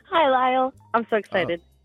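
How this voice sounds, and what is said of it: Cheerful, bubbly voice. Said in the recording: “You sound like a cheerful person ... I'm already getting that vibe”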